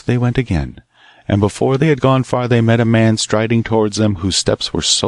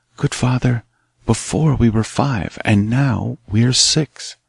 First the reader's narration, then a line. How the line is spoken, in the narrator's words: the young man whispered